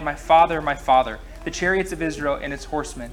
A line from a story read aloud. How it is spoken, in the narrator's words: Elisha cried